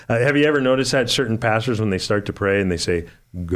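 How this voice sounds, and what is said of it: Usual voice. Nothing is said of it.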